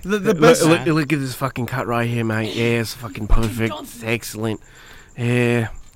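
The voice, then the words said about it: Put-on Australian accent. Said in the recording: “That's Australian. ... You're doing Australian. ... Yeah, he's doing Australian.”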